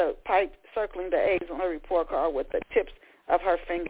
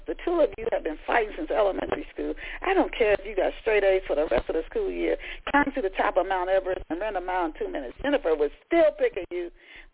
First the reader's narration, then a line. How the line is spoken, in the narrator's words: Paulette laughed